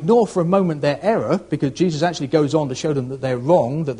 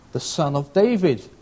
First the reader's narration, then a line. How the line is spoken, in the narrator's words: they replied